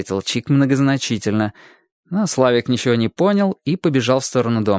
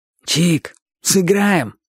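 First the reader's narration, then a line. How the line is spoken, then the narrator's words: Hoarse voice. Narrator (Russian): сказал Боча своим сиплым голосом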